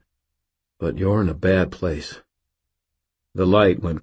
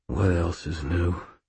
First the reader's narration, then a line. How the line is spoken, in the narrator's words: I muttered, like I didn't have enough to do already